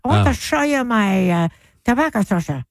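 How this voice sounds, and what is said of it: Put-on Amish accent. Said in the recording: “They have a weird accent.”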